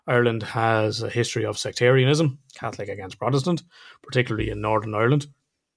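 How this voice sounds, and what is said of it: Irish accent. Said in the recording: “We're Irish, in case you couldn't tell by the accent.”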